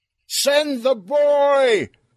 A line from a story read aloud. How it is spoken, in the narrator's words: Earl yelled